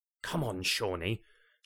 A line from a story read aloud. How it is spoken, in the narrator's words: Jane whispered into her husband's ear with tender sufferance